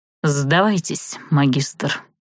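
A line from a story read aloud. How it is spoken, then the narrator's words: Flat, colorless voice. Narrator (Russian): бесцветным голосом произнес один из нападающих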